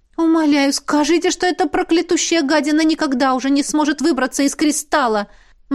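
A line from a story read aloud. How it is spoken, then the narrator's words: Anguished pleading. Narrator (Russian): Взмолилась Лесли, с тоской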